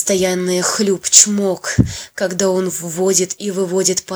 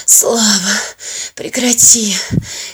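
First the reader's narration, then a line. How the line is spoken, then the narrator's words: Hoarse plea. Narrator (Russian): хриплю я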